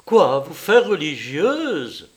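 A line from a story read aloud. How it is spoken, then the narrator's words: Exclaimed. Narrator (French): s'écria-t-elle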